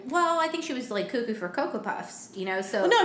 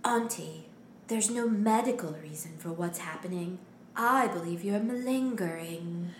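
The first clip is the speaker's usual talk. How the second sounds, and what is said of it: Imitation of Nerissa's voice. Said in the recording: “can do her voice”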